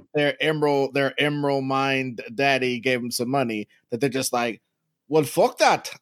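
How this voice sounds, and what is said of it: Put-on South African accent. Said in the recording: “I don't know what accent I'm doing ... They have, like, this foreign accent ... South African ... Weird accent ... halfway between Australian and from Brussels”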